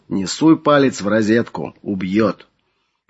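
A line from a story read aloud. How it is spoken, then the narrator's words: Warning. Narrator (Russian): предупредил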